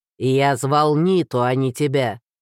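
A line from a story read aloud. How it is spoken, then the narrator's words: Barked, former guide. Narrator (Russian): гаркнул бывший проводник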